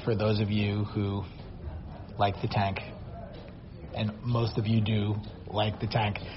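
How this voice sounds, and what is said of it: Somber voice. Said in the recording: “put on my somber voice”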